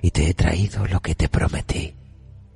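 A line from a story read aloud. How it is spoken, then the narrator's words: Proud murmur. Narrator (Spanish): musitó orgullosa de sí misma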